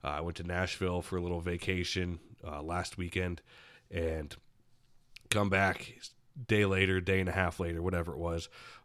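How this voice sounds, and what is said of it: Sick, congested voice from a cold. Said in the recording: “I'm sure you can tell by my voice... been under the weather a bit... I get hit like a freight train by this cold”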